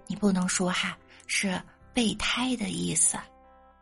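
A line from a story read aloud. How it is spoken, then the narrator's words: Slow, embarrassed. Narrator (Chinese): 她慢慢的跟我解释，又有点难为情的说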